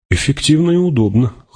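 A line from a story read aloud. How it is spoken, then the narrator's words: Wry snort. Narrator (Russian): хмыкнул он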